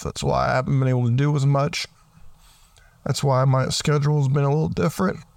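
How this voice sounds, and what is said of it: Rough, sick-sounding voice. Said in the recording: “I'm sick, and my voice has been rough... if my voice sounds really bad”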